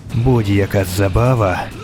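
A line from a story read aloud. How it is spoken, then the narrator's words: Hissed through clenched teeth. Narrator (Ukrainian): просичав крізь стиснуті зуби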